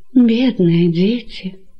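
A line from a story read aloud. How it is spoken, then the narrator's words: Sorrowful sigh. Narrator (Russian): Горестно вздохнула Александра, увидев входящих Мариамну и Ариставула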